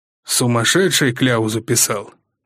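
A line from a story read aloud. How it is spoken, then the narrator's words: Gruff mutter. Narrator (Russian): буркнул министр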